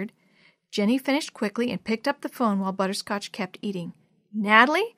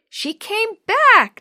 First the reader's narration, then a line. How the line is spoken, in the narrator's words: Natalie squealed